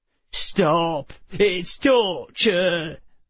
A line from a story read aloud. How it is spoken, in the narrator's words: another whimpered